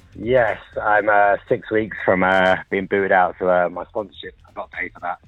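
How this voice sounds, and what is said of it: British accent. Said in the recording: “Is that a British accent I hear? ... It is, yes.”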